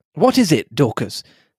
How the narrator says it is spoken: I asked impatiently

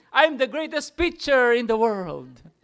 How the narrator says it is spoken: he exclaimed

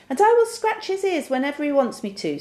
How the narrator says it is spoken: squeaked Little Ted

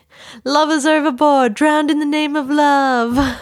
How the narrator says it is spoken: a dude on the boat starts bellowing

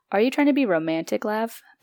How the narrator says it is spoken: Parvati giggled

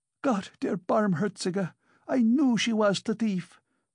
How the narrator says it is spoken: cried Amalia Ivanovna

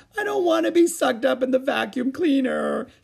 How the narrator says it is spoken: she sobbed

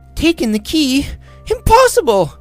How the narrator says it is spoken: cried Alicia

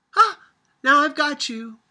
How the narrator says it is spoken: Sophia cried

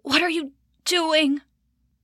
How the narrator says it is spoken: he croaked

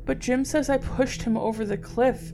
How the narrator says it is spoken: she cried hysterically

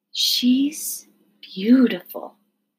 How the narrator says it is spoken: breathed Nellie

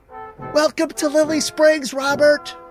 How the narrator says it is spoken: called out

